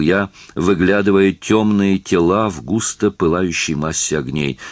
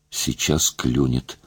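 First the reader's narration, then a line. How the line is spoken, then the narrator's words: Whisper. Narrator (Russian): шептал я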